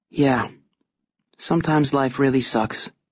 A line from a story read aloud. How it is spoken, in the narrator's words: she says